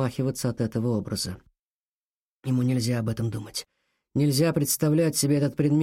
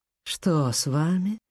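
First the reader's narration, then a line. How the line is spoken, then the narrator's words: Falsely sweet singsong. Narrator (Russian): притворно сладким голосочком пропела она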